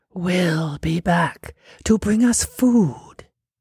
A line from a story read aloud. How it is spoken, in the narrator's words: a whisper